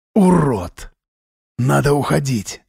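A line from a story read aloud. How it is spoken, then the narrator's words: Hoarse whisper. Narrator (Russian): хрипло прошептал Вадим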